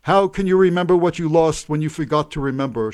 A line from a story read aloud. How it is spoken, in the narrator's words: cried to no one everywhere